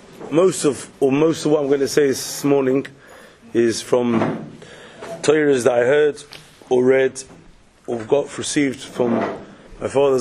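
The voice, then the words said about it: Croaky voice with a cold. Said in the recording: “my voice is struggling with a bit of a cold, and I'm a bit croaky”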